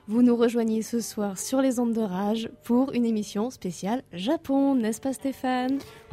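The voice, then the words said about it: Southern French accent. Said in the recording (French): “ton petit accent quand tu dis de fréquence ... On est bien dans le sud-est, du côté d'Avignon, de Nîmes ou d'Arles”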